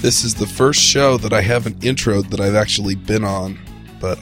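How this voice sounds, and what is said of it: Voice congested from a cold. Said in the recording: “I have a cold. ... Ouch, that sounds tough.”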